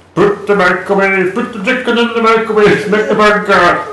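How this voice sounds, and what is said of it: Bad Swedish Chef impression. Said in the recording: “This is the Swedish chef. ... That's dreadful. That's awful.”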